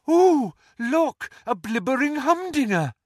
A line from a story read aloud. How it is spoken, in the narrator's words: she had cried